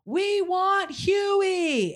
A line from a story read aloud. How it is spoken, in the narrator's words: someone yelled out